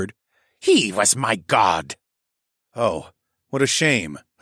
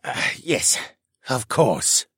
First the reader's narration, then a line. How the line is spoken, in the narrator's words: the man mumbled